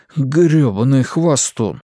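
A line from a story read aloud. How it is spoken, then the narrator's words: Grumbled. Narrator (Russian): пробурчал Стью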